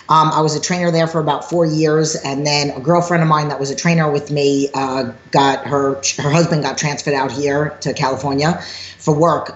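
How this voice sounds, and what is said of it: New York accent. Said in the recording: “hence my New York accent.”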